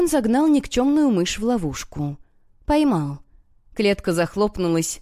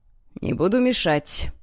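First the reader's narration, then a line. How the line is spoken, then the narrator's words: Snorting. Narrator (Russian): хмыкнул Гонсалес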